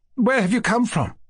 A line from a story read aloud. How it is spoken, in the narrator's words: cried Mushkin